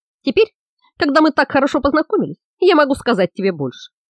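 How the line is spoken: Laughing. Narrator (Russian): засмеялся маньяк

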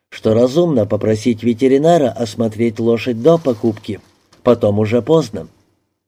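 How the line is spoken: Neutral tone. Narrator (Russian): заметил я нейтральным тоном

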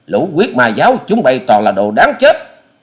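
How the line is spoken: Roar. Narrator (Vietnamese): Hoa Sĩ Kiệt gầm lên

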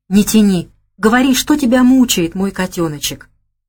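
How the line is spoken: Tender, affectionate. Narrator (Russian): Ласково проговорил он

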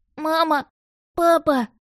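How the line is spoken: Distant sobbing child. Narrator (Russian): прорыдал мальчик откуда-то слева из-за деревьев

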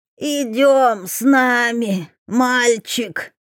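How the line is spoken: Creaky voice. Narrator (Russian): проскрипела

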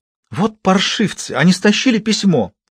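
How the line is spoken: Exclaimed. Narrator (Russian): воскликнула женщина

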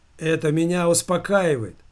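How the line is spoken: Cheerful brisk voice. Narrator (Russian): бодро проговорил Валера

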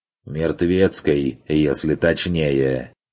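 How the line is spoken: Snorting. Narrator (Russian): хмыкнул

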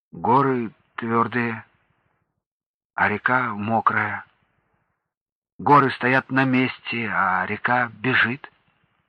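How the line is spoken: Uncertain boy. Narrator (Russian): Мальчик неуверенно сказал

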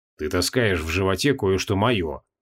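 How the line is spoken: Sullen grumble. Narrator (Russian): хмуро буркнул Креол

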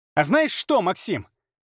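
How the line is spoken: Piercing, grating shout. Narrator (Russian): крикнула она, и голос стал пронзительным, как виск ржавого железа

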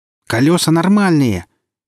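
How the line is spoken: Furious, slightly shrill. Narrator (Russian): яростный, совсем чуть-чуть визгливо ответила сталкер

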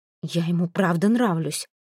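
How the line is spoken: Angry whisper. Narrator (Russian): сердито прошептала Ельга

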